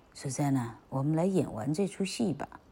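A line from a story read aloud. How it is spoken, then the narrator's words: Low quiet. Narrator (Chinese): 费加罗……他低声地对苏珊娜说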